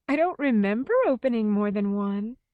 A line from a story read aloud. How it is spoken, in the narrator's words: Helen said and laughed